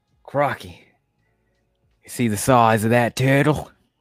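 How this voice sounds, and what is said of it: Put-on Australian accent. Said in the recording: “Is that an Australian accent?”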